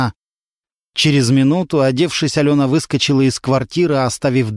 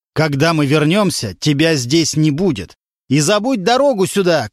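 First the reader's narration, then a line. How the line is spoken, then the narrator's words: Shouting from the stairwell. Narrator (Russian): кричал он уже с лестничной клетки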